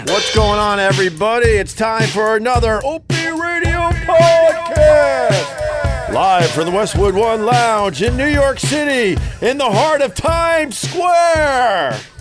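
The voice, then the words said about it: Exaggerated radio announcer voice. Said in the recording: “You like that radio voice, bro? ... my radio voice”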